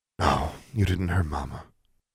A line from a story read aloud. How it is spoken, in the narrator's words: Claudia sighed